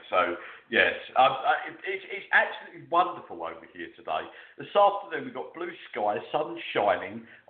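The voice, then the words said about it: Posh British accent. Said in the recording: “I'm talking in my posh UK accent”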